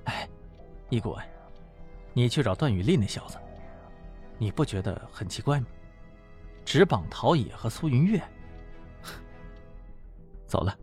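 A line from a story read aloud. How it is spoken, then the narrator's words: Low voice. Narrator (Chinese): 汪旭东低声说道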